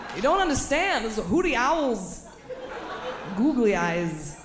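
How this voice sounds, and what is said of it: Christopher Walken impression. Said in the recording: “my Christopher Walken impression”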